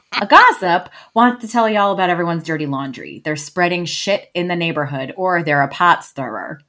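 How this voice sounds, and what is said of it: Noticeable accent. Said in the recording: “I can hear my accent now”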